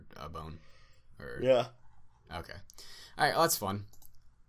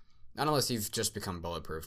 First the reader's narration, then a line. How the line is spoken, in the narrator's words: Bright said